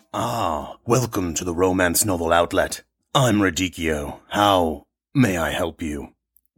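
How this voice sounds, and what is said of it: Rich, timbered deep voice. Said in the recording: “you have a very rich, timbered voice”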